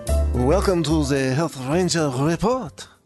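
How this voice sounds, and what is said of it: Put-on French accent. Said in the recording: “a little French accent intro there for you. Just for fun.”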